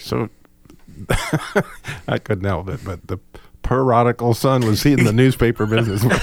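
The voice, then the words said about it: Mimicking another speaker's accent. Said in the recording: “Are you making fun of my accent? ... Yes.”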